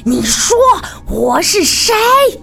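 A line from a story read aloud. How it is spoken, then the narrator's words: Shrill scream. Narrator (Chinese): 凄厉地喊道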